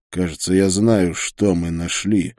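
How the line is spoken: Gloomy reply. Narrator (Russian): мрачно ответил я

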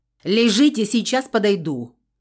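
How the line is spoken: Loud bark, female. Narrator (Russian): гаркнула, не поворачиваясь

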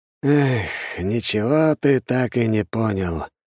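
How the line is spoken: Weary, wise old man's sigh. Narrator (Russian): с усталой мудростью вздохнул старик

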